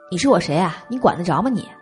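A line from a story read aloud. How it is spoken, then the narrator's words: Voice shaking with anger. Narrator (Chinese): 沈帅气得声音都抖了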